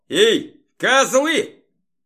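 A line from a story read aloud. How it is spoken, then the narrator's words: Shouting. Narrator (Russian): крикнул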